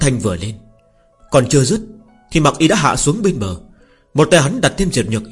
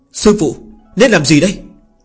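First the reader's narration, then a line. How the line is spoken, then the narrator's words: Hurried shout. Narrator (Vietnamese): Đường Điên vội vàng la lên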